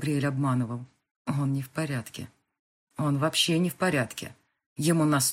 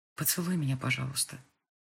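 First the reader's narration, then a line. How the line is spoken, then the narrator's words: Very quiet plea. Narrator (Russian): очень тихо попросила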